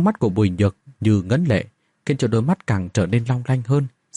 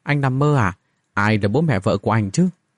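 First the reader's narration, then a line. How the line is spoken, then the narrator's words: Awkward unnatural voice. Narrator (Vietnamese): cô nàng nói với giọng không được tự nhiên cho lắm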